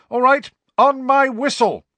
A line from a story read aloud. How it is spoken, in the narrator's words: shouted Angelina